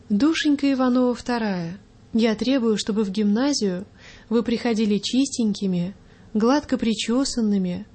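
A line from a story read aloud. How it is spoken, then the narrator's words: Gentle, affectionate. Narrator (Russian): ласково заговорила она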